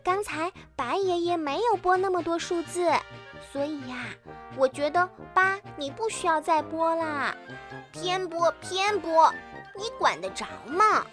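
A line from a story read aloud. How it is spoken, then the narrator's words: Plain. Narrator (Chinese): 小袋鼠说着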